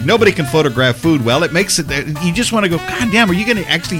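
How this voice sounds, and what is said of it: Usual voice. Nothing is said of it.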